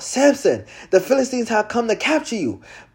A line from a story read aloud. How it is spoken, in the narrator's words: she cried out